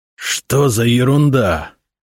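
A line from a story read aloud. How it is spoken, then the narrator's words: Hissed. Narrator (Russian): прошипел он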